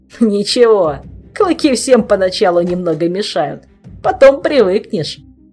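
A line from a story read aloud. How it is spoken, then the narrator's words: Chuckle, vampire. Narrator (Russian): хохотнул кто-то из вампиров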